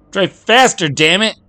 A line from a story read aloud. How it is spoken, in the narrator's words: Patty screeched at him